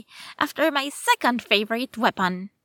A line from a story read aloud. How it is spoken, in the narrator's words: said, cheerfully